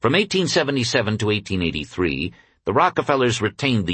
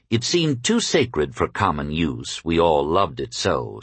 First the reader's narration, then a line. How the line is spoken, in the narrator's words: Seti later said